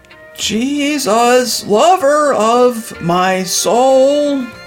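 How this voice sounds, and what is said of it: Bad, screechy singing. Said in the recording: “He sounds like a dying cat.”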